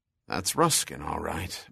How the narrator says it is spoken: muttered Farnham

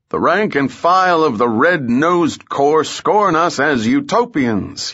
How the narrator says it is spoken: thundered

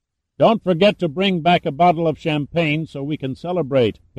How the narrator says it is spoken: Pitt shouted

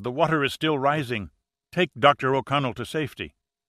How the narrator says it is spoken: begged Marquez

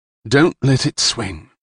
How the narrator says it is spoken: Karna whispered

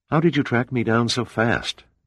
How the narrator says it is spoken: Pitt asked

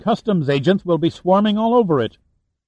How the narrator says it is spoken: pleaded

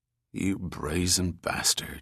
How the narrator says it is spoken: he muttered

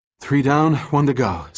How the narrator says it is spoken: gasped, taking in a lungful of air after being submerged for several seconds

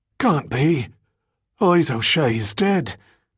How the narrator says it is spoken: The other, still struggling for breath on the floor, gasped

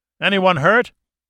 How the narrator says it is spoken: Austin cupped his hands and called out

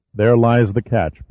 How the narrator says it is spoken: Pitt said evenly

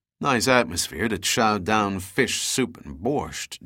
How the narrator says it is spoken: muttered

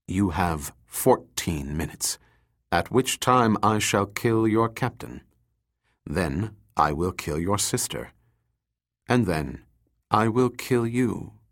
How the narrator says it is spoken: he said coldly, his lips parting in a self-satisfying grin

